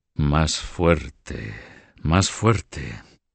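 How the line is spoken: Murmured. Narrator (Spanish): murmuró Carlos

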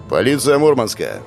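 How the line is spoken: Loud, clear male voice. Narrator (Russian): громко и отчетливо произнес другой мужчина

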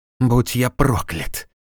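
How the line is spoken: Muttered. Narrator (Russian): пробормотал он

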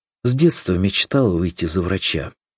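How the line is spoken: Smiling sigh. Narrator (Russian): улыбнулась Соня и вздохнула

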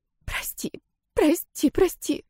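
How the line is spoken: Tearful whisper. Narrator (Russian): зашептала, обливаясь слезами

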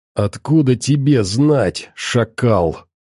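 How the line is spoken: Angry hiss. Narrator (Russian): Зло прошипел ученый

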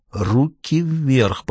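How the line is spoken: Hissing. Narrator (Russian): прошипел чей-то голос

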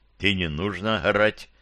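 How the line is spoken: Offended boy mumbling. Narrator (Russian): пробубнил пацан обидчивым тоном

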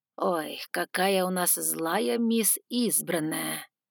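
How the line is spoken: Mock-tender drawl. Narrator (Russian): Умилённо протянул

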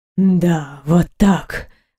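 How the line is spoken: Hoarse breathless exhale. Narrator (Russian): хрипло выдохнул он сквозь неровное дыхание

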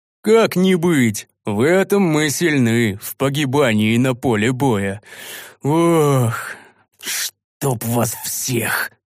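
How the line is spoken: Sighing. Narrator (Russian): вздохнул я

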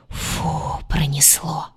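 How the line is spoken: Relieved whisper. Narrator (Russian): прошептала она

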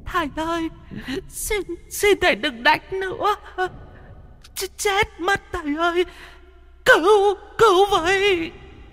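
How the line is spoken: Children and women crying, pleading. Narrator (Vietnamese): Có tiếng trẻ con, tiếng đàn bà khóc lóc van xin

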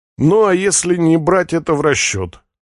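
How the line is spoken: Grim laugh. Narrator (Russian): Эдж мрачно смеется

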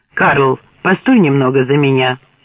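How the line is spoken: Curt, clipped. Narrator (Russian): бросил он отрывисто

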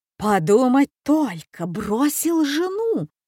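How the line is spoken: Indignant exclamation. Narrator (Russian): воскликнула она возмущенно

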